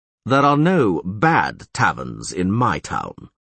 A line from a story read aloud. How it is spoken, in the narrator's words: said Neville slowly